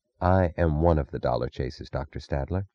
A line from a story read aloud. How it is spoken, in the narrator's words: she said, her voice low